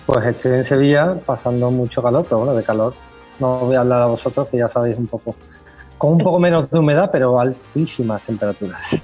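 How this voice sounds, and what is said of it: Spanish Sevillian accent. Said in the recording (Spanish): “Como podrán escuchar por el acento, eh, ... es español, sevillano”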